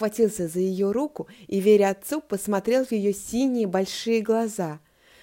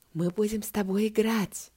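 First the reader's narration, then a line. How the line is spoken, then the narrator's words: Warm tickling whisper. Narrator (Russian): шепнул на ухо Тома теплый щекочущий голос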